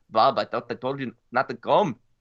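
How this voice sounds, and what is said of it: Bad attempt at German accent. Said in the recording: “That was a horrible German, by the way... That wasn't a German accent.”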